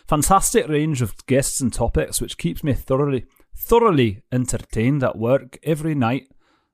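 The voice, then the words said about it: Poor put-on Scottish accent. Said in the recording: “I haven't done the Scottish accent in a while ... I wish I was good at accents and I'm not ... That's gone horrible ... I'm still doing her voice”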